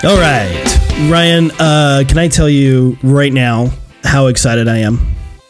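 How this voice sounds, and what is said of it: Flat monotone, mock excitement. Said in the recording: “People can hear the excitement in my monotone voice.”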